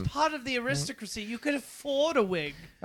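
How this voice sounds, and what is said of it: Put-on British accent. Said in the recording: “he's doing a British accent.”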